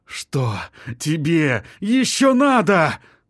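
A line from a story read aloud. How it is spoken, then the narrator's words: Through gritted teeth. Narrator (Russian): Процедил он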